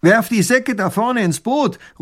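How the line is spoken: Robber calling out. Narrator (German): ruft der Räuber tunlich gut

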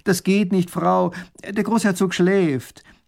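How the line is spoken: Calling out. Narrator (German): Erich ruft ihr zu

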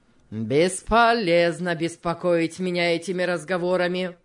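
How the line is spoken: Rude retort. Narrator (Russian): грубо возразил тот

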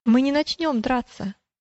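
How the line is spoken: Calm reply. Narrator (Russian): ответил великодушный спокойно

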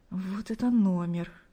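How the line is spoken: Embarrassed whisper to himself. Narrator (Russian): Смущенно улыбаясь, прошептал он себе

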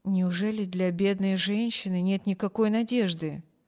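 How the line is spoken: Quiet, out of patient's earshot. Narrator (Russian): тихо спросил хозяин мисс Корта, чтобы не слышала больная

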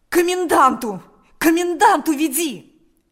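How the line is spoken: Desperate shout. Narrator (Russian): закричал Степан отчаянным голосом

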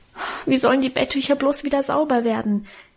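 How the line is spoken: Whining, lamenting. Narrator (German): jammerte ich

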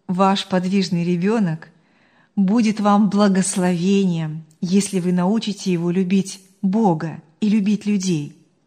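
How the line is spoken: Calm, firm. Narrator (Russian): спокойно и твердо сказала она

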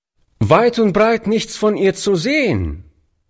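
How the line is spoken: Boy calling out. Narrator (German): rief der Junge dem alten Mann zu

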